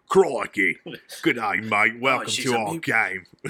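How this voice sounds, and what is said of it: Put-on Australian accent. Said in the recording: “Australians being like ... we have some really good Australian accents.”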